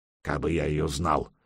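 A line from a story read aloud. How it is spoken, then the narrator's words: Grumbling. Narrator (Russian): буркнул ворчун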